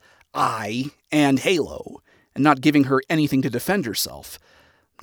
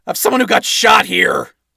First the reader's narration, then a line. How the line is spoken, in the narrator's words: Adam shouted as he began losing focus